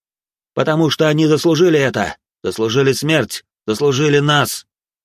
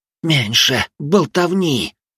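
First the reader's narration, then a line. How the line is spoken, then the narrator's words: Hissed. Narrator (Russian): прошипел Югай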